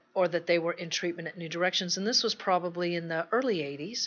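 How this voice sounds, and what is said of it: Slight Texas accent. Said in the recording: “I'm from Texas, if you picked up a little bit of an accent”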